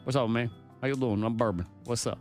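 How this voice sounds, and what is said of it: Put-on Kentucky accent. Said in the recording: “Bourbon has a Kentucky accent. ... I don't know why I hear Matthew McConaughey right now. ... Bourbon could have a Matthew McConaughey accent.”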